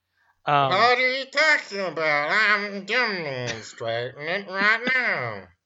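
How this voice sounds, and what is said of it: Soft buzzing drawl character voice. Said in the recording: “accent, I guess, is a soft, buzzing drawl ... It's annoying”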